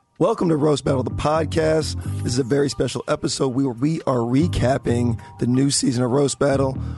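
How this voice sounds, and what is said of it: Hoarse, nearly lost voice. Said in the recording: “your voice is gone ... You can tell by my voice”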